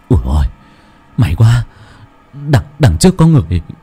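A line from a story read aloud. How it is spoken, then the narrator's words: Relieved muttering. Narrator (Vietnamese): anh Kiên thở phào, nhẹ nhõm lẩm bẩm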